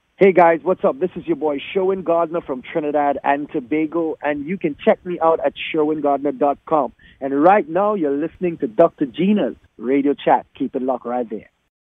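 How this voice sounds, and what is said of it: Noticeable accent. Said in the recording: “That accent, girl, that accent.”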